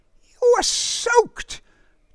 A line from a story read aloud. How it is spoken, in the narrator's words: Derek exclaimed